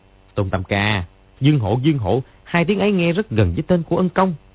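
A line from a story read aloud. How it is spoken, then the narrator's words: Disappointed, sudden loud cry. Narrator (Vietnamese): Gã họ Trần có vẻ thất vọng, đột nhiên kêu to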